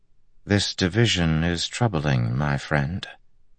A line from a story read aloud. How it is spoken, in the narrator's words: Imaran said softly